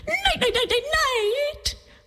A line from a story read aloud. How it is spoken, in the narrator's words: howled Coyote